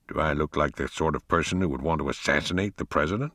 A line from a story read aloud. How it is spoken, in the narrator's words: Pug muttered under his breath